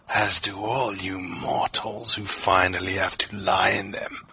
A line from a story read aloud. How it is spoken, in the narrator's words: he rasped